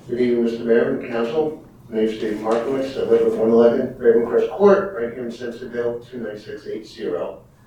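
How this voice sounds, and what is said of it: New York accent. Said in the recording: “I'm from New York. I guess you can tell by my accent.”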